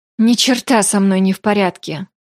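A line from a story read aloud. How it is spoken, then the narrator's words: Sigh. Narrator (Russian): вздохнула я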